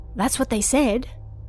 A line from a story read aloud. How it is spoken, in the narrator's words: whispered back